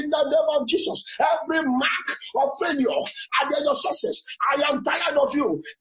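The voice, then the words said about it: Angry shouting prayer. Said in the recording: “Shout this one with anger ... Can you see the way I'm shouting my own?”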